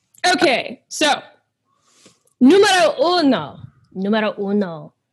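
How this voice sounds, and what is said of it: Poor put-on Spanish accent. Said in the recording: “I'm really bad at the Spanish accent.”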